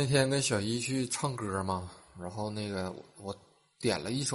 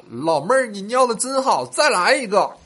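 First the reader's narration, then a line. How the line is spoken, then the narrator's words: Shouting. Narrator (Chinese): 大喊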